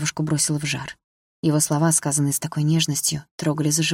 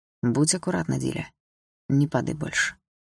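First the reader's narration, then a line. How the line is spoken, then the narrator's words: Quiet. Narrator (Russian): тихо сказал Лёша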